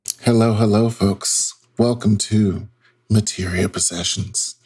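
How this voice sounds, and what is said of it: Smooth velvety radio voice. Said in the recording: “the dulcet tones ... it's velvety smooth ... I do have a radio voice”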